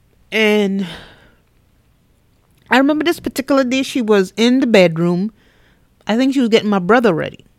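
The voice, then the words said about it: West Indian accent. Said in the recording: “you're going to hear my West Indian accent coming out in between”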